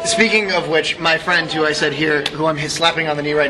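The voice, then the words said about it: Hoarse, nearly lost voice. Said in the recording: “You can barely hear me because my voice is gone. ... I thought like puberty was just setting in for you guys.”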